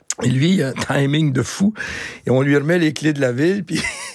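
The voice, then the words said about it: Speaks with a noticeable accent. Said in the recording (French): “garde ton accent”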